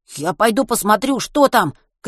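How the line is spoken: Shout. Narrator (Russian): крикнул Веня

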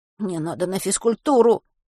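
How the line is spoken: Mumbling. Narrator (Russian): промямлил Веня

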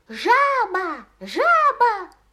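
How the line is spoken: Shouting in silly voice. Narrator (Russian): закричал он очень глупым голосом

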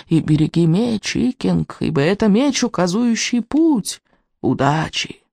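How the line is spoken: Tearful old man muttering. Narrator (Russian): Старик со слезами на глазах бормоча себе под нос

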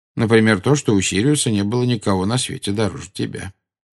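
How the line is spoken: Calm. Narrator (Russian): спокойно ответил Дамблдор

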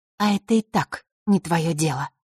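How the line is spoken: Calm. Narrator (Russian): спокойно произнесла она

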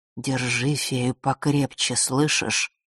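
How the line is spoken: Whisper in the ear. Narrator (Russian): прошептал в ухо голос черной королевы

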